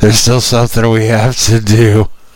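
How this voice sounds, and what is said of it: Whispering. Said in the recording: “stop whispering.”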